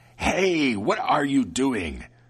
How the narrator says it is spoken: the devil screamed angrily

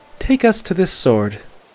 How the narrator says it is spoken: she said evenly

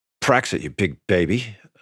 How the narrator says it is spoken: I said under my breath

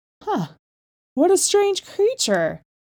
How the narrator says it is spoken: cried

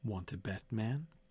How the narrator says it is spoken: Mike said softly

